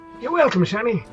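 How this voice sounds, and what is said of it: Inconsistent old man character voice. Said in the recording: “My old man voice is all over the map today.”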